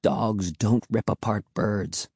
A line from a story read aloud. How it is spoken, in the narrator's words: Will replied quietly